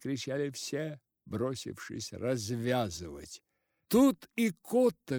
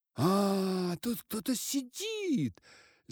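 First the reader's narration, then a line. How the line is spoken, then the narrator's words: Crowd shouting. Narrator (Russian): закричали все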